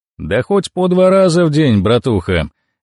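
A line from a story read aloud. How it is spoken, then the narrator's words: Cheerful reply. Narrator (Russian): весело отозвался Вагон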